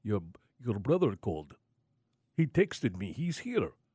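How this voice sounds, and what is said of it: Put-on Serbian accent. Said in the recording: “That's my Serbian accent for the caregiver”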